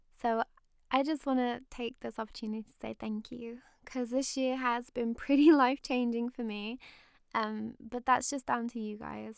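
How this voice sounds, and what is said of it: Weird, congested-sounding voice. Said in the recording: “I'm sorry if my voice sounds a little weird. I've really struggled to record over the past month or so because of my sinuses ... why does she sound so weird and gross?”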